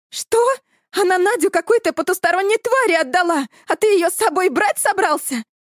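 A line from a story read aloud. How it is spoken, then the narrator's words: Shrieked. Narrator (Russian): взвизгнула Эля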